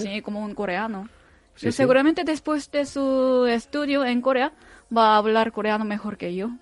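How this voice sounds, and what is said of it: Spanish with Cádiz accent. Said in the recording (Spanish): “tienes ese acento de Cádiz, ¿no? Que es el que te delata siempre”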